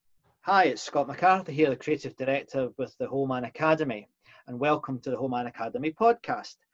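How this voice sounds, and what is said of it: Scottish accent. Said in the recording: “sound a bit Scottish, but that's just the way I am”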